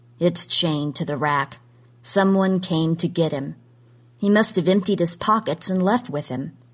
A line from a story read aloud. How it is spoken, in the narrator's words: said flatly